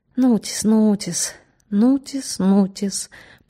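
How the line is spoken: Drawling. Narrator (Russian): протянул Бердичевский

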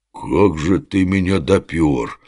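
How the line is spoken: Respectful drawl. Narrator (Russian): с уважением протянул Оболенский

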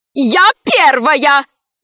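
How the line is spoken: Woman shouting. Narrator (Russian): закричала боевая подруга

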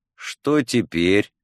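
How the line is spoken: Tired question. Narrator (Russian): устало спросил Адлер

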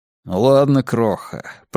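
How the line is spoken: Grumbled. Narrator (Russian): проворчал

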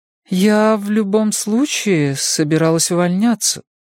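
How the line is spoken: Uncertain. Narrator (Russian): неуверенно произнесла

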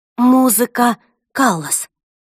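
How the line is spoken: Exclaiming. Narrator (Russian): воскликнула я

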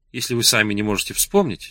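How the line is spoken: Innocent tone. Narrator (Russian): сказала она невинным тоном

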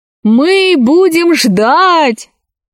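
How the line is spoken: Girls shouting in chorus. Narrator (Russian): хором закричали все девушки деревни

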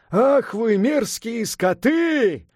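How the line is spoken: Yelled. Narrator (Russian): заорал Сунь-Укун

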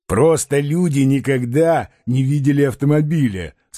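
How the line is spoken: Plain. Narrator (Russian): сказал Балаганов

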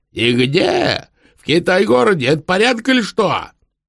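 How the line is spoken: Yelling even louder. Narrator (Russian): развопился того пуще

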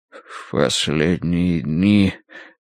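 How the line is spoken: Indistinct mumble. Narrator (Russian): пробормотал неразборчиво

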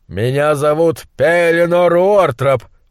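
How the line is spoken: Roaring. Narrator (Russian): проревел он

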